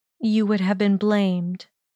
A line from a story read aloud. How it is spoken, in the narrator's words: she finished for him in a disappointed tone